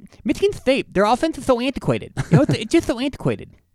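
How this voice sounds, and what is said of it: Imitates another person's voice. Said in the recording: “my Mike Tyson impression ... your best impression so far”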